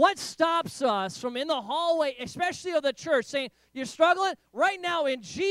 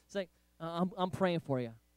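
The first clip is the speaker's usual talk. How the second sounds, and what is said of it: Put-on Southern accent. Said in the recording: “this little southern accent”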